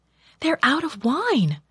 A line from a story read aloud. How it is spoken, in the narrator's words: told anxiously